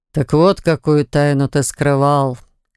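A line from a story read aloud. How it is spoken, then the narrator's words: Amused grunt. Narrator (Russian): хмыкнул лорд Оникс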